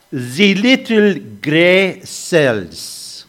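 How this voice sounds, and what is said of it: Poorly done Poirot accent. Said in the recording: “Sorry about my accent. I'm terrible at accents. ... That was Poirot.”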